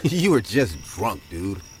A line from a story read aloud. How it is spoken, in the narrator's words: He laughed and said